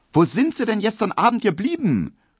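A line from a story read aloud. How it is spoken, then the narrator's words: Unfriendly call. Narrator (German): rief die kleine, runde Hedwig Emil Kubinke wenig freundlich entgegen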